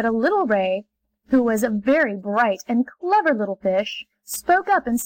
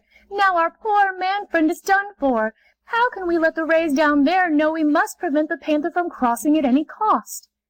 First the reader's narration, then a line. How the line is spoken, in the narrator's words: they cried to each other